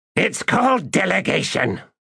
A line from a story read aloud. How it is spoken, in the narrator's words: Shadowthrone snapped